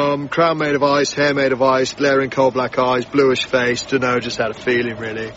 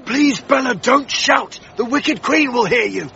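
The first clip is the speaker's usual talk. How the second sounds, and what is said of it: Whispering. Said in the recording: “Why are we whispering?”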